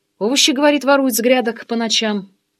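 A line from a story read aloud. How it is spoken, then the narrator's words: Calm explanation. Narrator (Russian): спокойно объяснила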